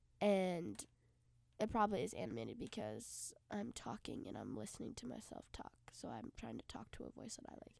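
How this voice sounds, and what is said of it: Congested, stuffy-nosed voice. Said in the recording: “I'm congested ... there's a bunch blocking my nose”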